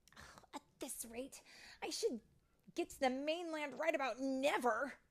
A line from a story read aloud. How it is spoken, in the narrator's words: she grumbled